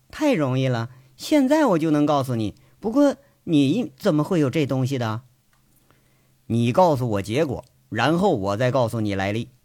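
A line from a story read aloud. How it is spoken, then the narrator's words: Dismissive, laughing. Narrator (Chinese): 佟思瑶不以为然，笑着说了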